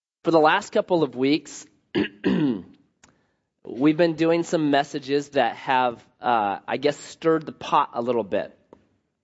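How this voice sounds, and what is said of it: Slightly sick-sounding voice. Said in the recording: “I have a little bit of a cold,”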